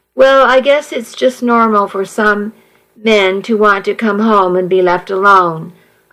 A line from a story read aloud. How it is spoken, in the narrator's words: I sighed